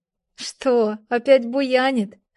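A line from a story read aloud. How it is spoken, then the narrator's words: Laughing. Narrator (Russian): рассмеялась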